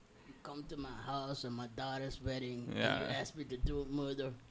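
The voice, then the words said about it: Imitates another person's voice. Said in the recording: “that's a bad impression.”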